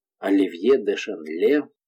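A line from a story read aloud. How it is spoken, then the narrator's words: Quiet repetition. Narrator (Russian): повторил тихо герцог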